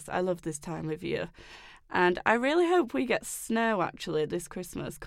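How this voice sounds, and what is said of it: English accent. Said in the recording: “I'm in England, by the way. I don't know if you could tell from my accent.”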